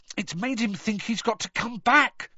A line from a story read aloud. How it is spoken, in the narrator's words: said Harry, now slamming his fist on the table